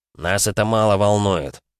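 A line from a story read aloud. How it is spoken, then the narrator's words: Indifferent voice. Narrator (Russian): безразличным голосом произнес второй псионик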